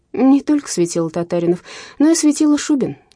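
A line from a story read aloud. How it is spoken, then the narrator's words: Woman laughing. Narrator (Russian): засмеялась женщина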